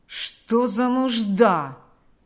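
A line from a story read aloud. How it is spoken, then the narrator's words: Grumbling. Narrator (Russian): проворчал Карп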